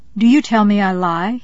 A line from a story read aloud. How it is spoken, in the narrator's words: exclaimed